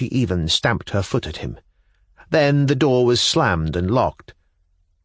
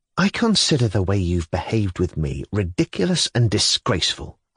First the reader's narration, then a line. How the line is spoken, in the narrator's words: I muttered indignantly